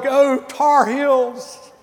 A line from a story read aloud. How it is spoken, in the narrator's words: screamed and hollered